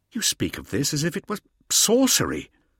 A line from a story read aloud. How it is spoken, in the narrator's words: exclaimed Hauser